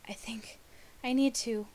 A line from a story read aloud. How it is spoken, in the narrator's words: Rodney gasped